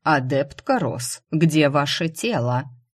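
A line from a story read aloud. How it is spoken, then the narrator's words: Cold calm, hidden anxiety. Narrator (Russian): За холодным невозмутимым голосом Горгорницкого мне послышалась тщательно скрываемая тревога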